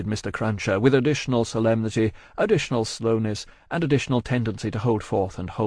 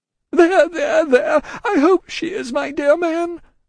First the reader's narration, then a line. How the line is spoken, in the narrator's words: cried the distracted Miss Pross